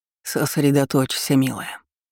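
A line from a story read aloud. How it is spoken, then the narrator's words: Anxious nervous whisper. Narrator (Russian): беспокойно прошептал Калиб, нервно сглотнув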